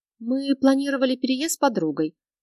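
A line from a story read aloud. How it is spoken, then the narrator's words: Mumbled, then sighed. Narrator (Russian): промямлила я и, пожав плечами, вздохнула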